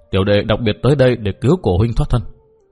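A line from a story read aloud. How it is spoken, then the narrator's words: Soft sighing speech. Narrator (Vietnamese): Dương Cử Nguyên buông tiếng khẽ thở dài nói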